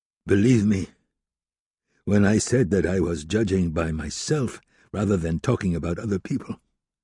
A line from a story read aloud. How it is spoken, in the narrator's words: Tychon exclaimed